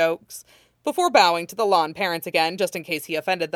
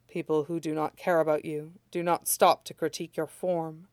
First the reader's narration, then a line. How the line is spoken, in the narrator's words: murmurs Lan Wangji